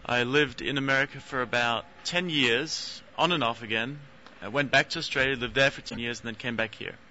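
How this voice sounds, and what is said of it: Australian accent. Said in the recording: “Hence the sexy accent.”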